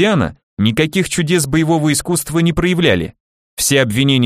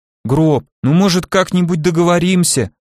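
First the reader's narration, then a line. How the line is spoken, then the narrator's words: Frightened reply. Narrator (Russian): Испуганно отозвался Кислый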